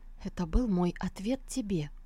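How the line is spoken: Weak whisper after fainting. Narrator (Russian): Когда сознание вернулось, она приподняла голову и прошептала

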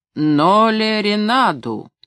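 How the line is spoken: Loud repetition. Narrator (Russian): Панди громко повторил в коридор

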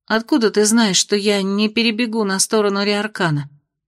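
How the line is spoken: Gloomy grumble. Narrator (Russian): мрачно буркнула Венди

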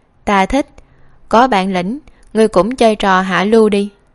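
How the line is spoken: Loud laughing. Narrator (Vietnamese): Khương Nhị Gia cười lớn

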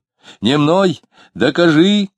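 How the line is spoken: Shouting. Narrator (Russian): кричал Дронов

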